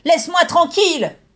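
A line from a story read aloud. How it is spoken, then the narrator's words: Screaming. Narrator (French): hurla Megumi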